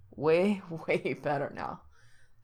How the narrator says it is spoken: Frank answers breathlessly

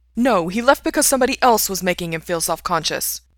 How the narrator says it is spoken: Ray snaps

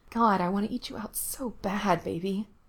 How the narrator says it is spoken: mutters

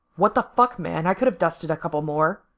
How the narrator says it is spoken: he snaps

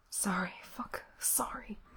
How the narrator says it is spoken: he whispered back

